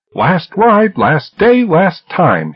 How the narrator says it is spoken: he yelled

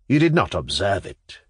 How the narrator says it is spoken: continued Pavel Pavlovich, his voice trembling with emotion

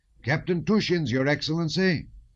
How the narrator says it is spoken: shouted the red-haired, freckled gunner in a merry voice

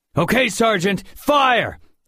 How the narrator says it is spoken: I shouted

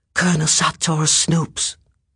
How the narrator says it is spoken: the boy whispered

